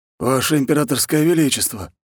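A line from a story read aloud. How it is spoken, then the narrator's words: Exhaled words. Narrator (Russian): Выдохнул он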